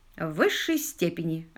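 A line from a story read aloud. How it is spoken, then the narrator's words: Plain reply. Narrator (Russian): ответил лорд Питер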